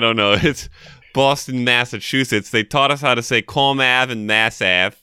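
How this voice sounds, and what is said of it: Usual voice. Nothing is said of it.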